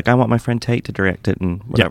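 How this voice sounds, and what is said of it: Put-on Southern US accent. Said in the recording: “That was my southern accent. ... It's pretty good.”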